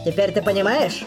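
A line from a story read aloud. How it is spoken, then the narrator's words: Rattling shrill voice. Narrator (Russian): сказал Саяма своим дребезжащим и пронзительным голосом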